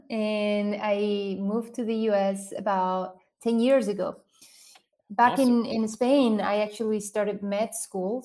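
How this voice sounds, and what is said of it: Spanish accent. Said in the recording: “I grew up in Spain. ... This is where this accent is from.”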